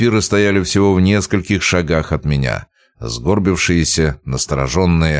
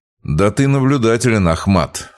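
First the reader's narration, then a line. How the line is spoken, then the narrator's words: Sarcastic grumble. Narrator (Russian): саркастично проворчал я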